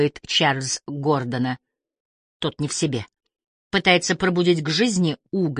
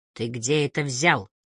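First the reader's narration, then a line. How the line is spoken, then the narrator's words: Muffled, hollow question. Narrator (Russian): глухо спрашивает он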